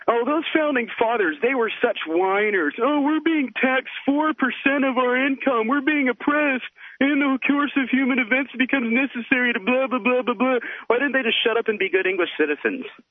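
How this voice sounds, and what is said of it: Mocking impression of a radio caller. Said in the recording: “Some guy called in from New Hampshire ... called you guys whiners ... can I do my impersonation of him? ... You nailed it.”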